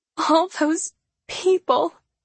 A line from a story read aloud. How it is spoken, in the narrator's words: she whimpers